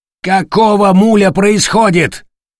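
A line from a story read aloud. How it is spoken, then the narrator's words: Roaring. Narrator (Russian): взревел Матиас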